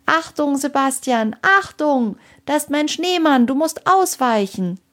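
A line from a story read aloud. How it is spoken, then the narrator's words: Shouting as loud as possible. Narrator (German): rief so laut sie konnte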